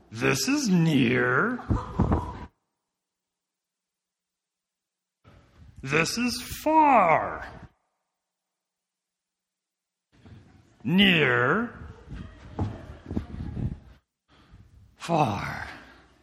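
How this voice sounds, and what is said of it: Grover from Sesame Street impression. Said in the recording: “I'm just a hair out of breath now... That's Grover from Sesame Street when he explains to children the difference between near and far. And he runs back and forth and gets all out of breath.”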